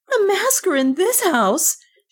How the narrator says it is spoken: she cried

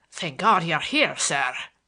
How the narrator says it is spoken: boomed forth in Bates' sepulchral voice

